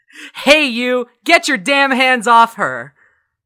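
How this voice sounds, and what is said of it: Booming loud deep voice. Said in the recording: “make my voice boom up to 3 times as loud as normal ... But bass boosted.”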